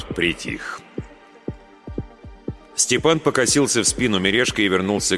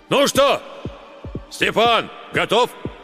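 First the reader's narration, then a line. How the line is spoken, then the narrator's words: Shouting village elder. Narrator (Russian): староста крикнул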